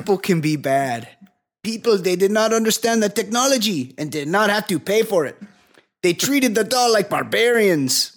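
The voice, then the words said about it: Put-on foreign accent, Sergey-style. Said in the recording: “Me doing an accent. ... I'm guessing you went more with the Santos part of the accent, not the Sergey. ... Yeah, that's what I'm doing. Sergey.”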